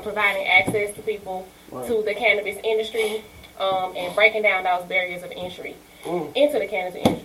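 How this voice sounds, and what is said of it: Out of breath. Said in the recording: “I don't know why I'm out of breath.”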